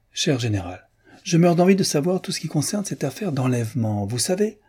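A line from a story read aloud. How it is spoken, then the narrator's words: Exclaimed. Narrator (French): s'écria la princesse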